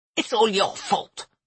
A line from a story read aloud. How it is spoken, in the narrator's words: Freya hissed